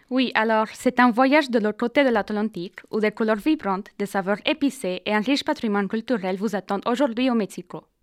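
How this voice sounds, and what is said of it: Mexican Spanish accent in French. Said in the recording (French): “vous voyez son adorable accent ... elle nous vient du Mexique”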